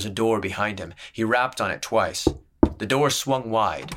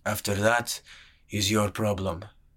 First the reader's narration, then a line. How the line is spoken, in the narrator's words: muttered the sellsword